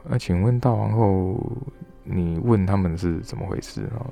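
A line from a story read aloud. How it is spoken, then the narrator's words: Sighing. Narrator (Chinese): 他就叹一口气，他就说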